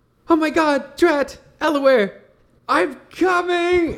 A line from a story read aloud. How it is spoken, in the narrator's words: Alexandria will scream